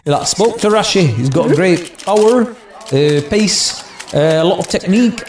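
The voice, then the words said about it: Ole Gunnar Solskjaer impression, Mancunian-Norwegian accent. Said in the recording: “Ole Gunnar Solskjaer ... he's got a really weird Mancunian Norwegian accent”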